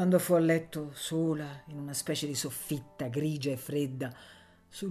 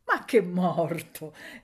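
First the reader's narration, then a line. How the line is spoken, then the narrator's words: Laughing, suddenly cheerful. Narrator (Italian): ella disse ridendo, improvvisamente allegra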